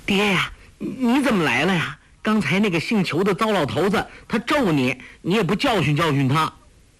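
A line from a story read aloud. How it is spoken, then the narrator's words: Laughing. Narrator (Chinese): 黄蓉笑道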